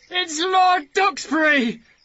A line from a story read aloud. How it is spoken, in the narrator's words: Watt shouted with joy